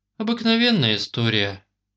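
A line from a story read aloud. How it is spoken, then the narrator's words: Sad. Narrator (Russian): грустно ответила Оля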